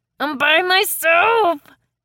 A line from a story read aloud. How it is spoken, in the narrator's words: Peyton sputtered